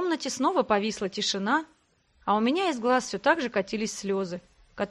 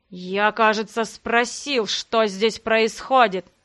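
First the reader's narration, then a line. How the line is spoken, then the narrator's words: Through gritted teeth. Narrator (Russian): Сквозь зубы процедил Ян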